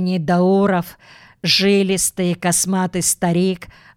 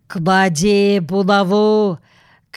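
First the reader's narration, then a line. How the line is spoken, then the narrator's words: Hoarse bass shout. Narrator (Russian): крикнул он хриплым басом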